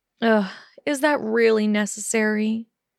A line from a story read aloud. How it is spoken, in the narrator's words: Hermione groaned